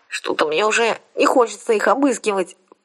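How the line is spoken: Nasal voice. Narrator (Russian): прогнусавила я

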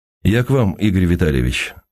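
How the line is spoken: Even, steady voice. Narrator (Russian): сказал ровным голосом

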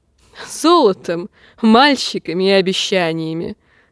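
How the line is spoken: Laughing. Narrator (Russian): расхохотался Питир

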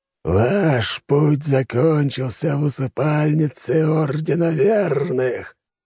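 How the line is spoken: Creaky voice. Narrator (Russian): проскрипел тот

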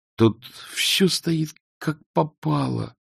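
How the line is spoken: Groaning. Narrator (Russian): простонал он

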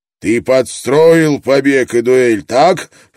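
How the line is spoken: Growl. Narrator (Russian): прорычал Брок

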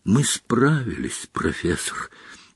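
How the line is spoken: Strained whisper. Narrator (Russian): не без труда прошептал Гарри

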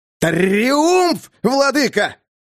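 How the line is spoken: Jester's quick shout. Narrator (Russian): не задумываясь, крикнул шут

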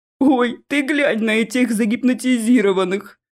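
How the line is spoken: Troll chuckling. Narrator (Russian): хохотнул один из троллей

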